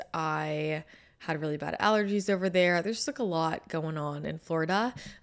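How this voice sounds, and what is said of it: Scratchy, partly lost voice. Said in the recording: “I apologize in advance for my voice. I'm a little scratchy. I lost my voice. ... I still don't sound normal ... I sound a little bit off”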